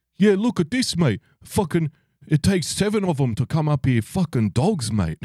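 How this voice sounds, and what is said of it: Accent with Mediterranean background. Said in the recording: “I can tell by the accent that the guy's probably got like a Mediterranean background”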